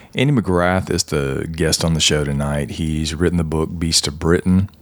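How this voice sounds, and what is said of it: Strained, nearly lost voice. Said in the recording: “I guess you guys can tell by my voice, I'm a little under the weather ... my voice is just about gone”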